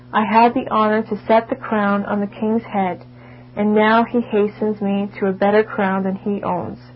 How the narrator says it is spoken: Argyll calmly said

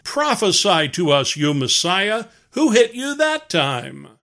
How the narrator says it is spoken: jeering

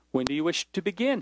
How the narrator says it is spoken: he asked

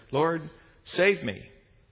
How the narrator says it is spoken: beginning to sink cried out and said

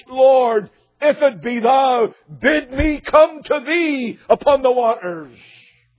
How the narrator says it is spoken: immediately he cried out to Christ

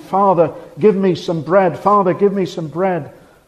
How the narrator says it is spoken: he cried to him

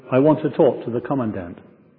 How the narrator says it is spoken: says calmly

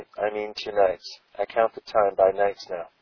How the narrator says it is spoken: he said gently

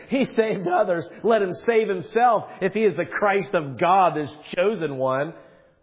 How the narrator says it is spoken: the rulers scoffed at him, saying

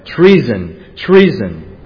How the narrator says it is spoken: Athaliah cried

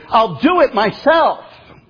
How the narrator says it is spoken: again she shouted, now even more angry

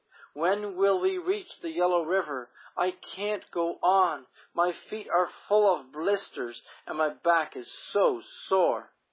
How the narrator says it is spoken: one of the boys pleaded

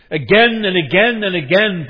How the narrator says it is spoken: Bartimaeus cried out at the top of his lungs

